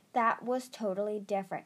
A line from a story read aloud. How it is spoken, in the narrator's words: Kestrel snapped